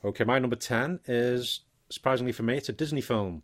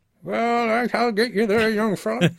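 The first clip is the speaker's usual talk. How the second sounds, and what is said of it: Old man voice, American accent. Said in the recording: “my old man voice is American”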